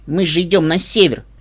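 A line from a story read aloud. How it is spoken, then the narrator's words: Indignant shout. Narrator (Russian): возмущенно выкрикнул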